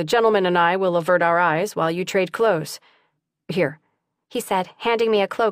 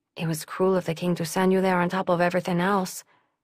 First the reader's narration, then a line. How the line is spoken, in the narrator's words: she murmured